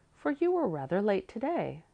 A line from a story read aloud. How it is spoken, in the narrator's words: she said kindly